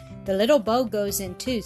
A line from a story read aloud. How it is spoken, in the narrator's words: said the uncle